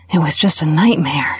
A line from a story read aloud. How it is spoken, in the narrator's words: she breathed